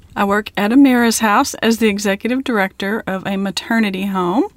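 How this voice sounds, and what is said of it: Texas accent. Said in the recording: “her beautiful Texas accent, which is a little different from mine”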